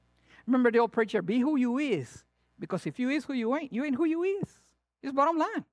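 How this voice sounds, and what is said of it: Latin American Spanish accent. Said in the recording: “I have a southern accent, south of the border, baby”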